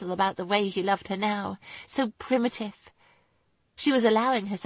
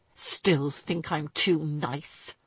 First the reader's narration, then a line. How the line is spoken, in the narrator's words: he asked, his voice brutally hard and filled with disgust